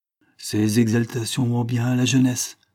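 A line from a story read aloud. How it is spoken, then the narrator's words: Fatherly tone. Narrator (French): me dit-il d'un ton paternel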